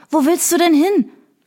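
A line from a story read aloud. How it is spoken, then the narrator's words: Panting question. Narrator (German): fragte Sarah keuchend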